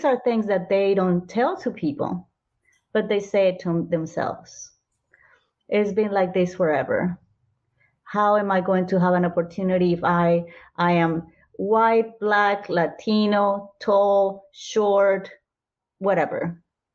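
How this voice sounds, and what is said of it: Colombian-inflected English accent. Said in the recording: “I have an accent, obviously... I'm Colombian, American, Australian... because I spoke differently”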